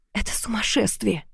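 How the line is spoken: Muttered. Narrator (Russian): пробормотала я

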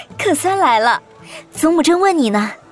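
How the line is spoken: Beaming cheerful. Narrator (Chinese): 段文英笑逐颜开，道

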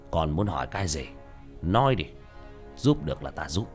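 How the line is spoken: Hoarse voice. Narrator (Vietnamese): Ông chú nói bằng giọng khàn khàn

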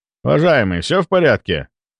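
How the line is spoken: Addressing someone. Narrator (Russian): Обратился я к таксисту

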